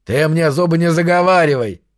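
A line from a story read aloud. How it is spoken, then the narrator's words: Barked. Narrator (Russian): рявкнул Зефиил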